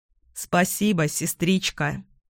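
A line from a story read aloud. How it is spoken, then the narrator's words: Plain. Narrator (Russian): сказал он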